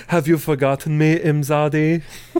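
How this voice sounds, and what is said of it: Imitating Troi's weird accent. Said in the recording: “with that weird accent”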